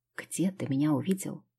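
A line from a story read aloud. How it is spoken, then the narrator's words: Quiet question. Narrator (Russian): тихо спросила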